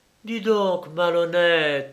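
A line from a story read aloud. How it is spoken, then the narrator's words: Exclaiming. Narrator (French): s'écria Laure d'Évreux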